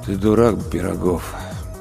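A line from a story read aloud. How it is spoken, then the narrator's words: Ghost's dull, flat voice. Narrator (Russian): тусклым голосом произнес призрак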